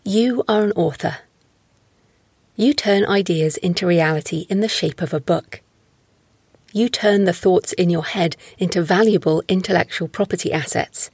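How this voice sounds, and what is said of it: British female, southwest England accent. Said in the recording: “I have a British English female voice ... I have a southern, southwest of England accent.”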